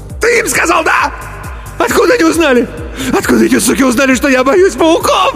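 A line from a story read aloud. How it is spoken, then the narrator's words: Shrill shriek, choking. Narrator (Russian): Взвизгнул Иван и захлебнулся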